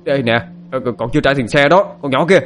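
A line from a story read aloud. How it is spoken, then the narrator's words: Driver shouting. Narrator (Vietnamese): Ông tài xế thấy vậy hét lên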